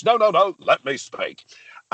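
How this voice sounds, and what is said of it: Bombastic Nigel Farage impression. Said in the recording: “I get all the ones that have bombast ... Nigel Farage”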